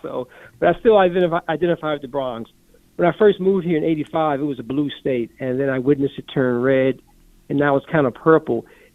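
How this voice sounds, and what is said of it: Acquired regional Georgia accent. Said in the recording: “You acquired the accent, by the way, I will note.”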